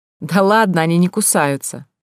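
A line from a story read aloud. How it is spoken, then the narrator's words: Laughing woman. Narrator (Russian): засмеялась женщина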